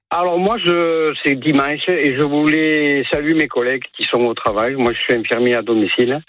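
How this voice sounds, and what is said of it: Southern French accent. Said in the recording (French): “À vous entendre, on l'aurait deviné, parce que c'est un accent du Sud que vous avez”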